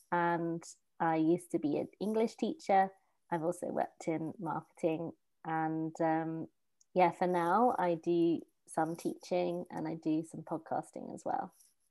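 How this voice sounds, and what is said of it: English accent. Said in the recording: “you were from England ... your beautiful accent”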